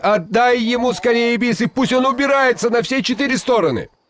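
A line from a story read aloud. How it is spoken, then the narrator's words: Frightened shout. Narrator (Russian): Шагайбай испугался, что Алдар Косе еще задержится в его ауле, и крикнул жене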